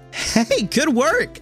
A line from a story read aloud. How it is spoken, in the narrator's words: Luz laughs as she rushes over to Hootie